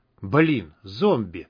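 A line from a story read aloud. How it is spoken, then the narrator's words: Hissed. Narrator (Russian): прошипел Бай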